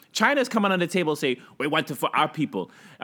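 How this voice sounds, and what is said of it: Put-on Chinese accent. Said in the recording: “Was that a Chinese accent?”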